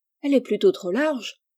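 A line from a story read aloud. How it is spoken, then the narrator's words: Exclaiming. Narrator (French): s'écria Rose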